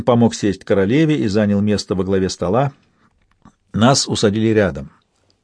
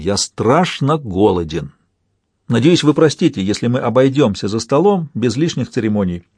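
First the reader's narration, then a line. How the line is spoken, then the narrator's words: Exclaimed, king. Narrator (Russian): король Рейн воскликнул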